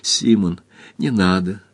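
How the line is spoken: Woman pleading. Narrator (Russian): взмолилась женщина

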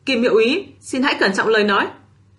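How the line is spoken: Stern angry shout. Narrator (Vietnamese): Triển Chiêu xa sầm mặt quát

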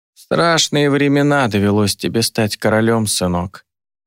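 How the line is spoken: Barely audible creak. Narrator (Russian): проскрипела Астра едва слышно

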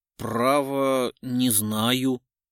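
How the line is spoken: Mumbling. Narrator (Russian): промямлил Бузникин

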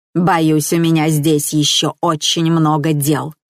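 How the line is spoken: Creaky voice. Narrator (Russian): скрипучим голосом ответила она

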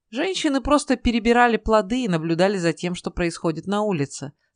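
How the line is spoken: Plain. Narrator (Russian): сказал Ной

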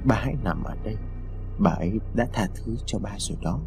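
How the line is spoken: Soft speech. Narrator (Vietnamese): Lý khẽ nói

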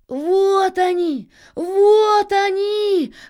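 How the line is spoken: Sudden shout. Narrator (Russian): внезапно крикнул Аист

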